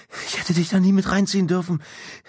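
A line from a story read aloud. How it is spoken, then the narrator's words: Breathless panting. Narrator (German): keuchte Slim, um wieder zu Atem zu kommen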